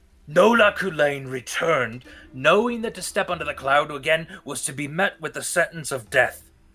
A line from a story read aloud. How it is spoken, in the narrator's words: the elder begins to shout to the rest of the crowd